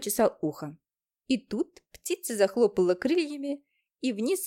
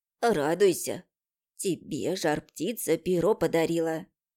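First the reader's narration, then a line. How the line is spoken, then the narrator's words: Breathed out. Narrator (Russian): Выдохнула Аука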